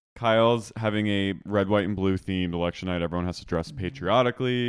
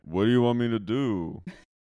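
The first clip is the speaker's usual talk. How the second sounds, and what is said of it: Imitates another person's voice. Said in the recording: “It's a really good Mauricio impression.”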